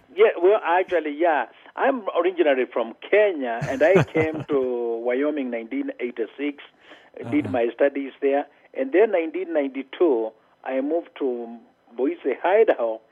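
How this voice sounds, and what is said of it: Prominent foreign accent. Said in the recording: “I have an accent ... you have a very prominent accent”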